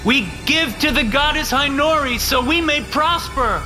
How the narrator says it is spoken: the pledges shouted

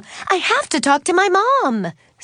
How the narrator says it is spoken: Suzanne exclaimed

